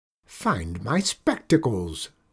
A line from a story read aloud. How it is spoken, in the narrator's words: she snarled in her meanest witch voice